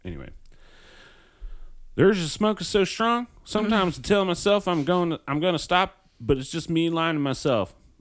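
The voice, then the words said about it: Put-on Southern American accent. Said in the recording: “I'm gonna do a Southern American accent”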